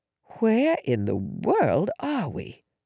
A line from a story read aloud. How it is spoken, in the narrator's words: I whispered